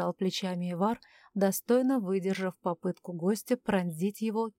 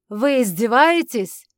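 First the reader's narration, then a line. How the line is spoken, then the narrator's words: Roaring. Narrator (Russian): взревел Захария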